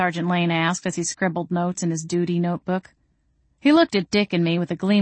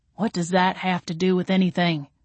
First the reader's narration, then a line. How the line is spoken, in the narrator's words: Dick growled